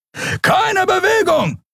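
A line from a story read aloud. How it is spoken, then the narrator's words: Shouting. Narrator (German): schrie ein Weißmantel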